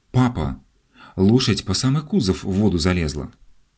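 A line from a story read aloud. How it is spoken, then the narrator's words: Excited child's exclamation. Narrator (Russian): Алик воскликнул, увидя купающегося в Волге коня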